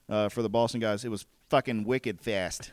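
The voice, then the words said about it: Put-on Boston accent, not very convincing. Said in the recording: “That was your Boston accent? ... How is it? Bad? ... Well, it's as good as my Southern accent”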